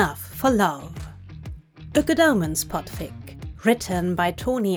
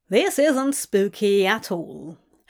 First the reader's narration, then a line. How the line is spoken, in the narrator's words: Anna said dryly